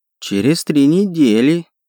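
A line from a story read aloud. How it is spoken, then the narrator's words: Bleating goat-like voice. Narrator (Russian): проблеял Кронт козлиным голоском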